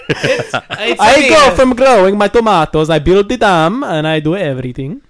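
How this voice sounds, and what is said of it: Poor put-on Italian accent. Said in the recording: “that was a terrible Italian accent ... Let's do another take”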